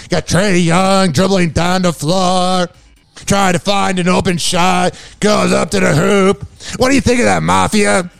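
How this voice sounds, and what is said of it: Impression of radio host Scott Ferrall. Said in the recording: “my best Scott Ferrella impersonation”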